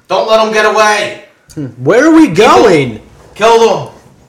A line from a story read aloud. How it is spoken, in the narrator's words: You hear the guy scream